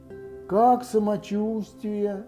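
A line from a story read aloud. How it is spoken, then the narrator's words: Gloomy question. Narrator (Russian): по обыкновению уныло спросил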